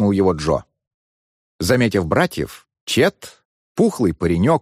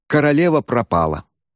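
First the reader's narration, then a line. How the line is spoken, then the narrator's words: Sad. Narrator (Russian): печально ответил Чет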